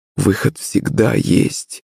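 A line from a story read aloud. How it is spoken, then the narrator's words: Muttered. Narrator (Russian): пробормотала Наталья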